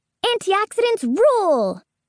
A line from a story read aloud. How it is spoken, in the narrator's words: shout